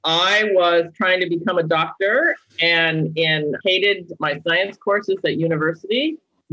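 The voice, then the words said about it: American accent. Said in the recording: “As you can tell from my accent, I am not English. I am British. I am American.”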